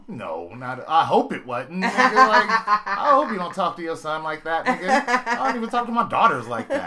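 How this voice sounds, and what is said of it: Usual voice. Nothing is said of it.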